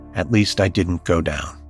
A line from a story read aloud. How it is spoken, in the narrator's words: Ali tells reporters in a slow and quiet voice